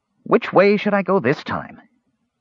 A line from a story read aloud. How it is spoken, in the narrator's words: said aloud